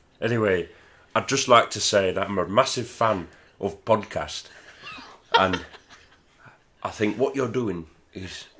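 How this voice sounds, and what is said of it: Shifting put-on regional English accents. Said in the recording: “Why do you keep changing accents so much?”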